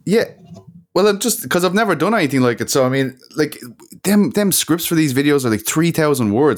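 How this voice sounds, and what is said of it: Monotonous non-American accent. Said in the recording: “My voice is monotonous. I don't sound like an American. ... your accent also gives it a little something.”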